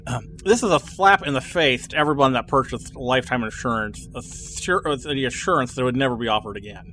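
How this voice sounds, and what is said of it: Angry forum poster character voice. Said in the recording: “I'll put on my forum rage voice.”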